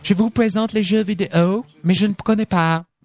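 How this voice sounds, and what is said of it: Put-on American accent in French. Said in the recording (French): “un petit accent... Qui est américaine”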